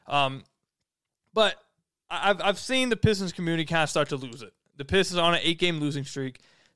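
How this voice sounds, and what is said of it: Voice sounds off, unwell. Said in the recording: “You guys can probably hear it in my voice right now. I'm not 100%. I'm feeling pretty sick. ... my voice sounds a little off”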